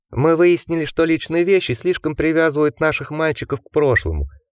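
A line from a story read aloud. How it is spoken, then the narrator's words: Cooing. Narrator (Russian): проворковал Гарденер Джеку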